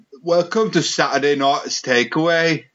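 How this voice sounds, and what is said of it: Put-on Geordie accent. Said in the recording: “Can you do a Geordie accent there”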